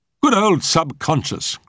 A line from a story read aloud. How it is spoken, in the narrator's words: cried Jack Trent